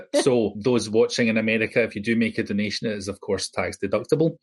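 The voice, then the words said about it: Non-American accent. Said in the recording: “despite my accent, an American nonprofit”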